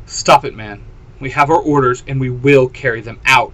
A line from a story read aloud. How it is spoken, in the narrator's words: Xander snapped, a fire seeming to be in his eyes